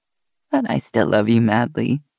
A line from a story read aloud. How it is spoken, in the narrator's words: she said with a chuckle